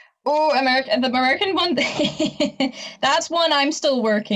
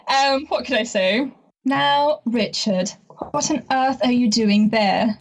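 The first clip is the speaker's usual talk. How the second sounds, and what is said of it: Posh upper-class English accent. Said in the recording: “give me an English one then. Give me your Downton, your best Downton Abbey ... Oh, very impressive, very impressive.”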